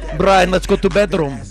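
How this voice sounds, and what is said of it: Put-on Russian accent. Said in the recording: “Russian accent ... that accent”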